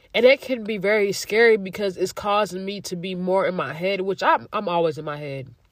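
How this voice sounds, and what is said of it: Stuffy, congested voice. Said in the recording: “I sound so stuffy right now”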